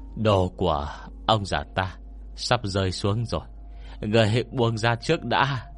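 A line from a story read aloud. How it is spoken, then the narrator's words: Breathless speech. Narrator (Vietnamese): Quy Bất Quy thở hổn hển tiếp tục nói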